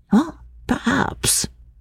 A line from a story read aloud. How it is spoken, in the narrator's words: she murmured